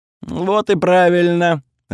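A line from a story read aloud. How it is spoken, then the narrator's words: Laughing goddess. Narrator (Russian): рассмеялась богиня огня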